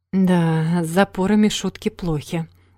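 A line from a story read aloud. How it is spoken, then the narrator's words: Sighing. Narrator (Russian): вздохнула ее товарка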